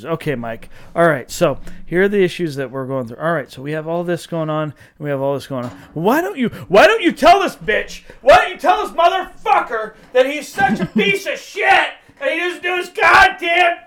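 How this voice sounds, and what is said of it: Fast-paced ranting speech. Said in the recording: “I said it quickly, more quickly than it generally goes”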